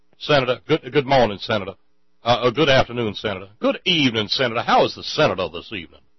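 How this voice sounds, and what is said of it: Attempted New Orleans Southern accent. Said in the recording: “I don't do the accent down there at all well ... New Orleans bayou area ... that accent”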